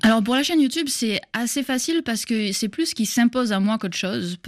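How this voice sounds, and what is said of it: Mixed southern French and Québécois accent. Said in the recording (French): “mon petit accent un petit peu mélangé ... Un petit peu mélangé entre le sud de la France et le Québec”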